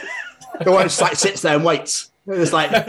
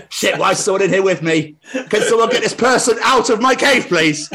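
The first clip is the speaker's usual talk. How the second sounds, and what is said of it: Impression of a house spider. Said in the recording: “doing an impression of a house spider in Wales”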